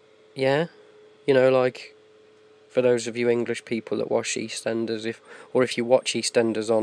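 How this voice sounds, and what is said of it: Usual voice. Nothing is said of it.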